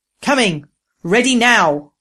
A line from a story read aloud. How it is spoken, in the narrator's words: Proam thundered